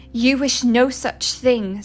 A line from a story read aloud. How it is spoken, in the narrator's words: snapped Hildy